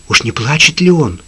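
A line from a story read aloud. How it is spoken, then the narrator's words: Frightened question. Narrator (Russian): испуганно спросил Джим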